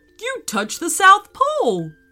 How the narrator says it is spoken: cried Meelo

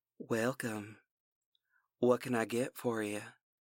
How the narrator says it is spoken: Her voice was dusky, the Louisiana accent

